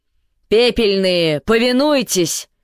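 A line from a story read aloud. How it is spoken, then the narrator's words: Shouted. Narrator (Russian): крикнул Эйтель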